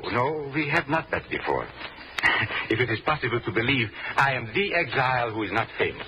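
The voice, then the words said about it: Hard-to-place European, possibly German accent. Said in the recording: “accents of your country, but yours is most difficult to place. Is it Asuf German? ... it is difficult to place my accent”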